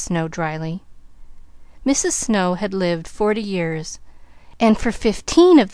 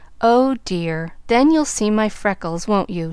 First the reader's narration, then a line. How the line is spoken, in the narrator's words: she sighed